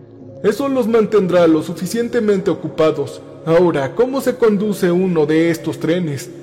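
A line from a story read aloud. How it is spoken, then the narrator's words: Plain. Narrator (Spanish): dijo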